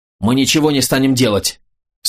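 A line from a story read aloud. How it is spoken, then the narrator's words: Shouted again. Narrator (Russian): снова выкрикнул Андрей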